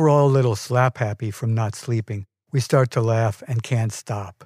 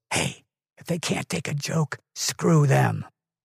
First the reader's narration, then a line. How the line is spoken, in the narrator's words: my father whispers to us